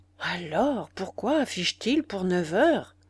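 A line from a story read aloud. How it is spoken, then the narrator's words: Vexed murmur. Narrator (French): murmura Hector, dont la longue figure maigre prit un air vexé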